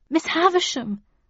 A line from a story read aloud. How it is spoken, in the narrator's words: I pleaded